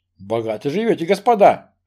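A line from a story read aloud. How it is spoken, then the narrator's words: Snorting. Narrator (Russian): хмыкнул бедряга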